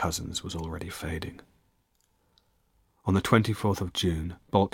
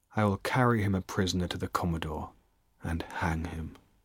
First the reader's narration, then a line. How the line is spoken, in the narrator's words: Cheap said coldly